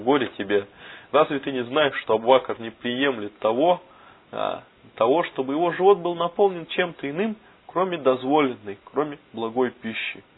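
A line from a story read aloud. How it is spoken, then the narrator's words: Laughing. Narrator (Russian): рассмеявшись, сказал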